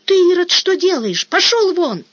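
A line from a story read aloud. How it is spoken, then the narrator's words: Sudden cry. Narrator (Russian): воеводша … дико озираясь, вытаращив глаза, вскрикнула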